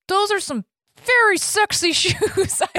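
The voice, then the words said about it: Imitates another person's voice. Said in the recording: “That's a good imitation.”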